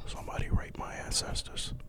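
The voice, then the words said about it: Whispering. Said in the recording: “I don't know why you're whispering.”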